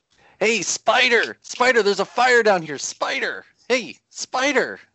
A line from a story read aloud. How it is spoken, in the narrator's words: As loud, like twice as loud as he was yelling